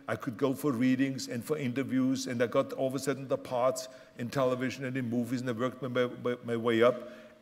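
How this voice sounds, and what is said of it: Austrian German accent. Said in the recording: “someone like myself that comes from Austria with a German accent”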